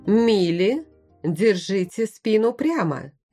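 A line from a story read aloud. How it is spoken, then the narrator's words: Governess sharply scolding. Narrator (Russian): прикрикнула гувернантка Гринхильда Марсе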